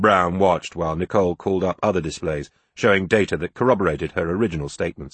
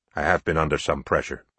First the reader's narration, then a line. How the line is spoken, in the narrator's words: he mumbled